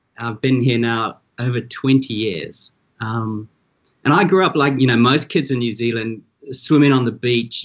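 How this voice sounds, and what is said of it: New Zealand accent. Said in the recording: “You can tell from my accent, I'm originally from New Zealand.”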